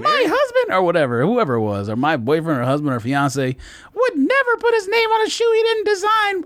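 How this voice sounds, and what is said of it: Put-on woman's voice. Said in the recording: “Why am I doing that voice? ... Every time you make a woman voice, that's exactly how you do that”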